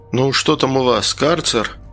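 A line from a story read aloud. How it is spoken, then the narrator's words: Grumbling. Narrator (Russian): бурчал я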